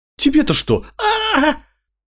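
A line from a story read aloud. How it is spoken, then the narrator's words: Howling in pain. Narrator (Russian): Мелсер взвыл, когда я приподнял его, и приложил об стену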